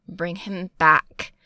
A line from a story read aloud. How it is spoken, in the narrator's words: he snarls